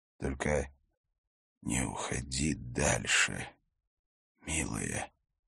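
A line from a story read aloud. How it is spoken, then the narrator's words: Whisper. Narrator (Russian): шептал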